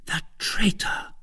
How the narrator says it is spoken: murmured Madame Bonacieux

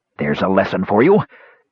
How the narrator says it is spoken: he said, panting

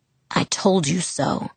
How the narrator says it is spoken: the perfect voice murmured crystal clear

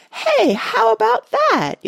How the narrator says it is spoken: yelled the boy

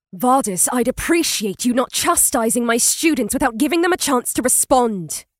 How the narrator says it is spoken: snapped Tawny

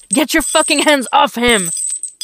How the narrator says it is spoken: Dick shouts

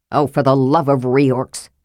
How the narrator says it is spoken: Flint grumbled

